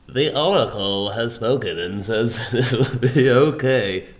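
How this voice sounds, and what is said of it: Oracle character voice. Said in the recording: “that Oracle impression”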